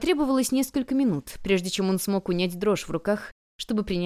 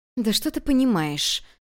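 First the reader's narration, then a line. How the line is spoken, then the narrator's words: Cold through-teeth speech. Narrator (Russian): Процедила благородная супруга, холодно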